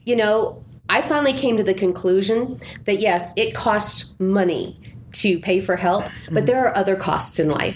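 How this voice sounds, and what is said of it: Voice sounds unwell, still recovering. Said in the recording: “can tell from my voice that I'm still recovering from something.”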